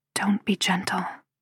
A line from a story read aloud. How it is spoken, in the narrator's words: I whisper